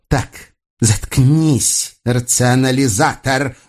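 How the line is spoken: Irritated hiss through teeth. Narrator (Russian): с нескрываемым раздражением прошипела Агата сквозь зубы

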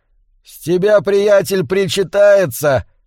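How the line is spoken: Shouted over music. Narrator (Russian): крикнул в зал певец под бравурную инструментальную коду

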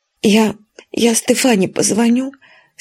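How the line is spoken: Sobbing. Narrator (Russian): сказала она сквозь всхлипы

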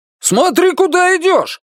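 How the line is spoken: Motorcyclist shouting. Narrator (Russian): крикнул ей вслед одетый в черный мотоциклист

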